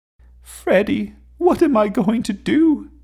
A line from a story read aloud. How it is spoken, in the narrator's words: whimpered